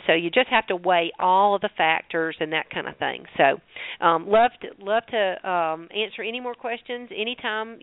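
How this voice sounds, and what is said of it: Southern American accent. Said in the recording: “my southern accent.”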